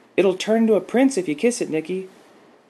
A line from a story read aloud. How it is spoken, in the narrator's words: Lacey Peters called out